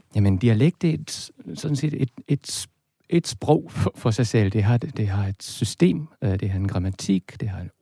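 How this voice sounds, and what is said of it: Danish spoken with German accent. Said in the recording (Danish): “jeg taler med, med tysk accent, det vil sige, at jeg udtaler øh, dansk ord som en, som en tysker.”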